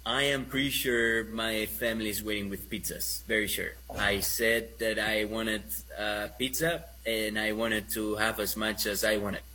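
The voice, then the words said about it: Spanish accent speaking English. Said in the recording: “It's my Spanish accent. It's my Spanish accent trying to talk Americano.”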